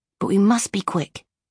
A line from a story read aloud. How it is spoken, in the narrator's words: he whispered